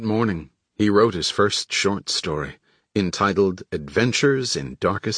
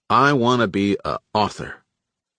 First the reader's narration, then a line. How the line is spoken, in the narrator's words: announced to his family, in a very determined tone